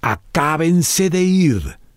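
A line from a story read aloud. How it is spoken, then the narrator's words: Bellow. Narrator (Spanish): emitió un bramido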